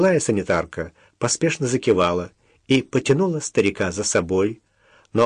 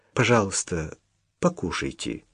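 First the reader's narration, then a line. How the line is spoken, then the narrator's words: Quiet, awkward. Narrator (Russian): негромко сказала Даша, начиная чувствовать себя неловко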